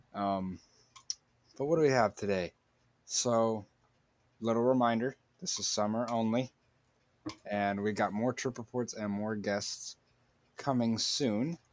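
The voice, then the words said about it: Sick, rough-sounding voice. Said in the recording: “my voice sounds terrible. I'm a little bit sick.”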